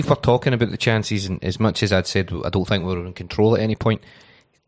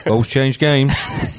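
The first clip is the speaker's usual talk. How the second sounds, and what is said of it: Put-on English accent. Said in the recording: “Do it in that English accent”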